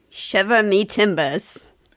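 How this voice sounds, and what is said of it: Put-on pirate accent. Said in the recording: “That's got a pirate accent”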